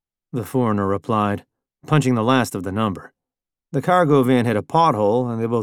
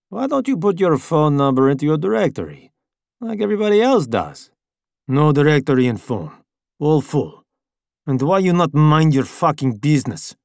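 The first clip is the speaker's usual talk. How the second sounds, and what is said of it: Foreign accent character voice. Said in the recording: “said the man with the foreign accent”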